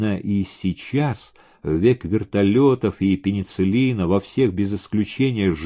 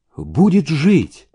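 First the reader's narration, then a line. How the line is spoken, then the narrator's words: Confident exclamation. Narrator (Russian): убежденно воскликнула Даша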